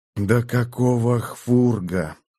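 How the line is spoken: Puzzled hiss. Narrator (Russian): прошипел, не понимая

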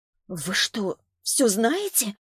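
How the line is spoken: Strained. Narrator (Russian): выдавила она из себя

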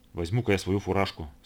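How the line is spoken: Plain. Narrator (Russian): сказал второй радист

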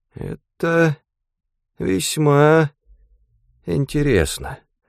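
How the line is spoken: Mutter. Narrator (Russian): пробормотал он

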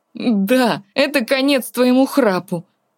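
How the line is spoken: Laughing loudly. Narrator (Russian): Несмотря на серьезность ситуации, Артур захохотал

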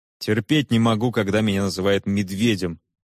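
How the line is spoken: Irritated interruption. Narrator (Russian): раздраженно перебил ее Том

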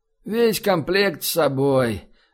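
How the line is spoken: Big man's sleepy voice. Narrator (Russian): Вялым сонным голосом отозвался здоровяк, уже улегшийся спать

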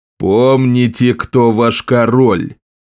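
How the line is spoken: Growling. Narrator (Russian): прорычал Скорбь, затем понизил голос

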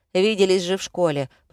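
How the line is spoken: Grumble. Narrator (Russian): проворчал Сергей

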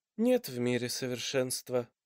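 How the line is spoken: Sighing fox. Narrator (Russian): вздохнул лис

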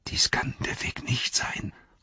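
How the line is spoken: Breathy whisper. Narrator (German): hauchte Frodo

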